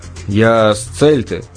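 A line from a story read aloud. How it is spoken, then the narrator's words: Muttered. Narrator (Russian): буркнул Джек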